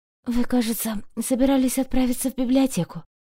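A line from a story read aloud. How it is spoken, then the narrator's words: Hoarse. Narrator (Russian): хрипло напомнила я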